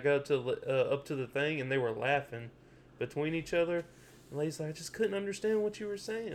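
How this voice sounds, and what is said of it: Louisiana Southern accent. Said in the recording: “You can't understand my accent? ... in Louisiana?”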